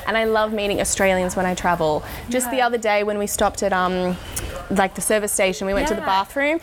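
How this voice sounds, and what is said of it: Australian accent. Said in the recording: “who can't be a fan of this accent?”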